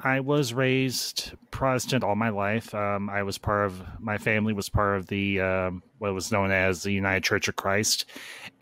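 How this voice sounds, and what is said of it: American Midwestern accent. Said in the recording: “I had a friend from Indiana ... it's a very familiar accent you have with him”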